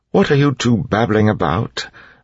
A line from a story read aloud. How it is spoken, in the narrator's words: Breeze said testily